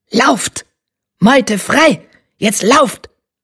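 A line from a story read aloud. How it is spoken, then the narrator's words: Triumphant barking. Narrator (German): bellte triumphierend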